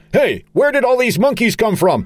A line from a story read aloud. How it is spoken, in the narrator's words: Charlie, shouting